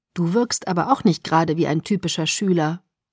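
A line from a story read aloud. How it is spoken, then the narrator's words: Plain. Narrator (German): sagte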